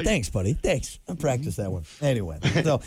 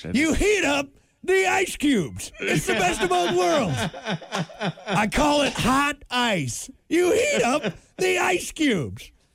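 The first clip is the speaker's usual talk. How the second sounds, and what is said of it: Impression of Marv from Home Alone. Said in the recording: “Marv from Home Alone ... your best impression yet”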